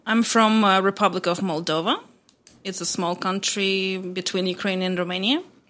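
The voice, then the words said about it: Foreign accent. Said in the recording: “the accent. I love the accent.”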